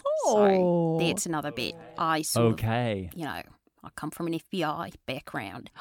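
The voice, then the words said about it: Australian accent. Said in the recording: “this accent ... suddenly you're an Australian”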